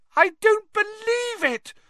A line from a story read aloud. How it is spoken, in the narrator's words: Hermione screamed